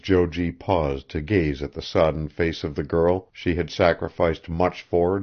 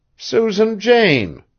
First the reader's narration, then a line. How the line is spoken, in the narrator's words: faltered Maud